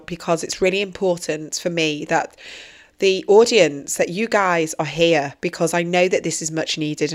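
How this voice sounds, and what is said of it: Slightly hoarse voice. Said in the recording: “as you can actually hear, I've got a bit of a hoarse voice”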